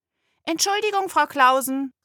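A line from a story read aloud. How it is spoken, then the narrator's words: Girl calling out. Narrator (German): rief das Mädchen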